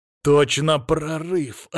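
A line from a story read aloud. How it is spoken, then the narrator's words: Joyful exhale. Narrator (Russian): радостно выдохнул я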